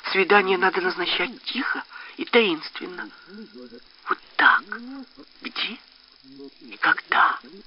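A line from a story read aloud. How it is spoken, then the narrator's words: Quiet, mysterious. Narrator (Russian): сказала она тихо и таинственно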